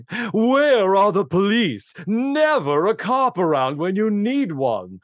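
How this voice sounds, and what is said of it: Imitates another person's voice. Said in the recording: “My Gail Gordon's going to go down with my Conrad Bain impression ... it is dead on”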